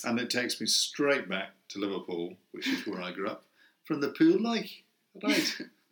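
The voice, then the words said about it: Beautiful regional English accent. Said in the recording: “What a beautiful accent that was”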